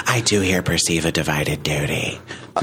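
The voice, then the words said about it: Husky Amanda Lepore impression. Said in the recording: “my Amanda Lepore impersonation ... Husky. It's very husky.”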